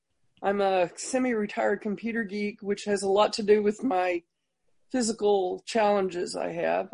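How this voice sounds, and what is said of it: Tennessee Southern US accent. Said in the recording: “originally from Tennessee, as you can tell by the accent”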